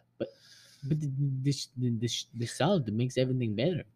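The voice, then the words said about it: Thick put-on accent. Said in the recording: “You put on the accent so thick, I couldn't even hear what you said.”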